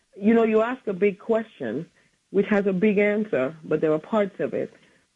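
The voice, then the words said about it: Slightly hoarse voice. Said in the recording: “I'm sorry I'm a little hoarse”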